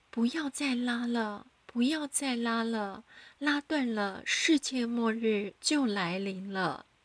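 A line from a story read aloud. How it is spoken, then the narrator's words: Loud shouting. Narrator (Chinese): 他一直大声的喊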